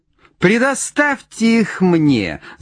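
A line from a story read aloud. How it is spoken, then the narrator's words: Shrill shout, small frog. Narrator (Russian): закричал тут лягушонок, пронзительный голос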